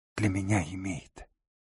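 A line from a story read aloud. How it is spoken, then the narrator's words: Strangled whisper. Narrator (Russian): сдавленно прошептала она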